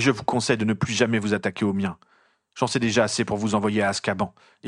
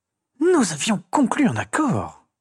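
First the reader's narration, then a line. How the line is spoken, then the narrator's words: Hissed. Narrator (French): siffla-t-elle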